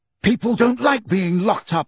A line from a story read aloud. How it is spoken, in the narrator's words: Harry said furiously